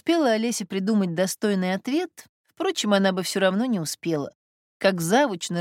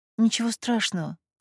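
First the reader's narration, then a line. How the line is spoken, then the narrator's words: Muttered. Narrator (Russian): пробормотала Олеся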